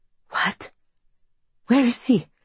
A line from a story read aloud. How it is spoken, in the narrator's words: Her voice is shaky